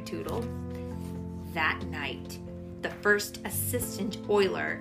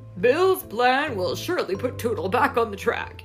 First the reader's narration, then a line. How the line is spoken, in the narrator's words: he chuckled